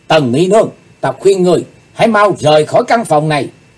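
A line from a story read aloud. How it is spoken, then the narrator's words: Sudden shout. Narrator (Vietnamese): Bỗng Chí Tôn hét lên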